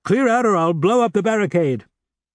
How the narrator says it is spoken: All of a sudden, a thundering voice was heard shouting

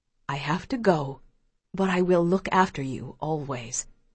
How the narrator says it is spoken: Pa says softly

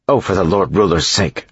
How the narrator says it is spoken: she snapped

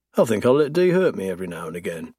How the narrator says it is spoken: he mutters

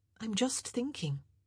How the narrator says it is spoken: Penelope said quietly

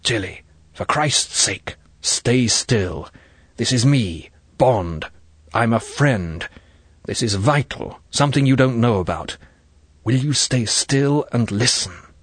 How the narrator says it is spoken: He whispered urgently

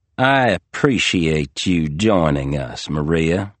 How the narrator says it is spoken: Barney said, his drawl just a bit heavier than usual, his cadence a beat slower

